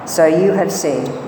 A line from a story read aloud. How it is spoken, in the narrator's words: Jesus replied